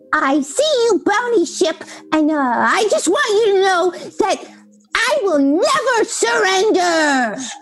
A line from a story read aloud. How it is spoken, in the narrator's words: screeched the little voice